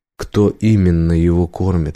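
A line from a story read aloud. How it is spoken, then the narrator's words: Plain question. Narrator (Russian): спросил Убер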